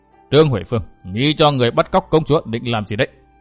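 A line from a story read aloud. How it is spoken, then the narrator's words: Harsh, stressed voice. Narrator (Vietnamese): Phi đại nương gằn giọng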